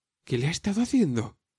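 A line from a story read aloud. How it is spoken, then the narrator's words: Exclaimed. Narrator (Spanish): exclamó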